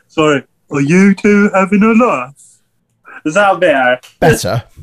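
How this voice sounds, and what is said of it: Put-on Birmingham English accent. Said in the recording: “he's from Birmingham, not London ... why are you putting on a fake Ouija accent for him, mate?”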